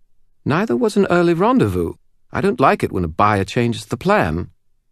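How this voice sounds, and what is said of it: Smooth British accent. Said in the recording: “Anna Valmont's smooth British accent answered it”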